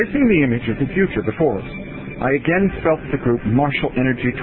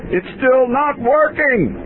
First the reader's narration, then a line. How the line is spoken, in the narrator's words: I heard Curtis yell